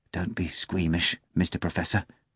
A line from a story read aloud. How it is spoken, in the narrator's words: the bartender whispered